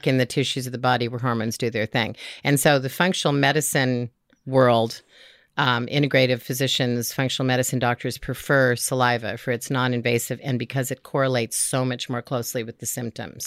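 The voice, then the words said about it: Hoarse, croaky voice. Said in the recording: “I have a frog in my throat today”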